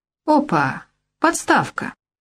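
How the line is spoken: Joyful cry. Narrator (Russian): радостно вскрикнул Яныш

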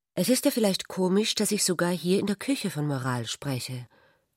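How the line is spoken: Embarrassed. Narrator (German): sagte Ulrich verlegen

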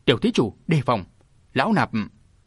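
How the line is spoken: Sudden scream. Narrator (Vietnamese): Nguyên Chí đại sư bỗng gào lên

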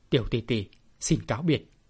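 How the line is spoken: Cold curt, hurt and angry. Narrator (Vietnamese): Vừa đau vừa tức, nhưng bản lĩnh rất quật cường, Bạch Thiếu Hồng lạnh lùng nói gọn

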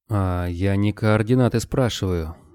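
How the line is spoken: Gentle, over the phone. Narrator (Russian): ласково сказал он в трубку

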